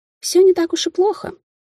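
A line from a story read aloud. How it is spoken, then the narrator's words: Doubtful. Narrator (Russian): с сомнением сказала Кейтлин, лишь бы не соглашаться со служанкой, утомившей за время пути нравоучениями и стонами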